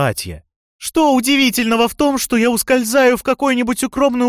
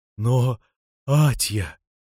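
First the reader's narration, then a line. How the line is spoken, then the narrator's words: Timid mumble. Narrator (Russian): робко пробормотал супруг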